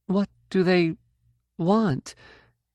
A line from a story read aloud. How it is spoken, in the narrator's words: asked nervously